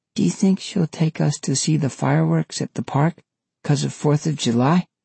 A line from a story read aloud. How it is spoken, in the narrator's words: Frankie murmured